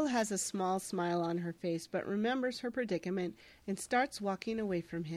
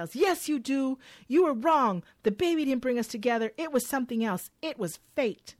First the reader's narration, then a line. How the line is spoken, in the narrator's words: Alex yells